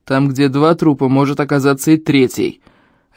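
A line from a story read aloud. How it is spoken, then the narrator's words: Barked. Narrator (Russian): рявкнул на него Эльм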